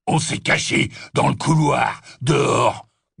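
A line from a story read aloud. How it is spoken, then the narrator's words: Grunted. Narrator (French): grogna Goyle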